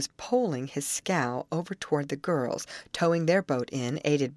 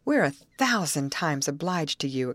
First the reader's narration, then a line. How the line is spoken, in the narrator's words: exclaimed Molly impulsively